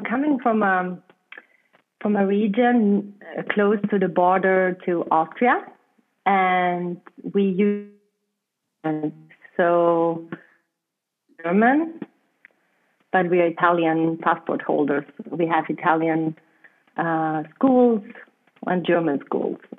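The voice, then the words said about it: German accent. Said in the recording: “my accent is German because my mother language is German”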